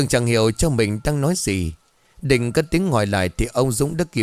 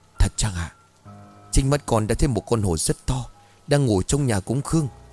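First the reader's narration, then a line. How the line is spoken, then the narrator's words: Soft reply. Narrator (Vietnamese): Cường dường như đã hiểu ra dụng ý của cha, anh cũng khẽ đáp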